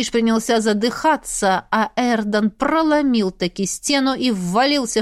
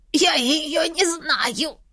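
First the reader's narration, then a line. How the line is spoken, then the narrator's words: Wheezing between gulps of water. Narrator (Russian): Сипел Растиш, жадно глотая воду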